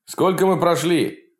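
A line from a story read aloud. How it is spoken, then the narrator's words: Shouted. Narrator (Russian): крикнул Сергей Иннокентьевич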